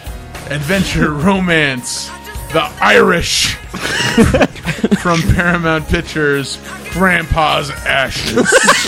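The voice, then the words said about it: Dramatic movie trailer announcer voice. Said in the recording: “the movie announcer voice.”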